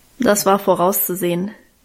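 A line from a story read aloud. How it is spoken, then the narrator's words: Dry. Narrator (German): meinte sie trocken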